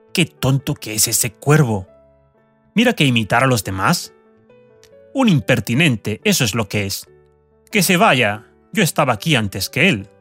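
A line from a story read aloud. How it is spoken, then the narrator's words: Low scolding mutter. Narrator (Spanish): regañando en voz baja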